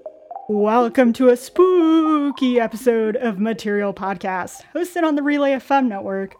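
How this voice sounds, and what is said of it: Attempted spooky voice. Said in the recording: “my take at trying to do a spooky voice, and I think I failed miserably.”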